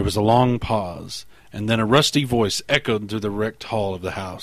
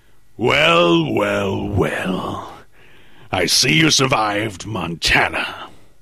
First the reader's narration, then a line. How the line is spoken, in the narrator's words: Through his laughter, George shouted in a deafening roar